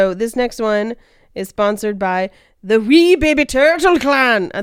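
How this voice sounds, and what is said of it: Usual voice. Nothing is said of it.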